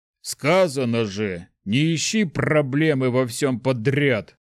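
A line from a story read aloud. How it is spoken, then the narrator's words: Grumbling. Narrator (Russian): проворчал Шухрак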